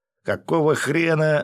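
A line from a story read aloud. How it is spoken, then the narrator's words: Yelling driver. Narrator (Russian): заорал водитель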